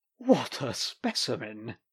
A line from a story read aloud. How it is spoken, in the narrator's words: he chuckled